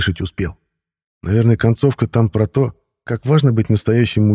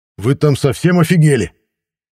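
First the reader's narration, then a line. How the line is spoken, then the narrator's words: Indignant shout. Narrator (Russian): прокричал возмущенно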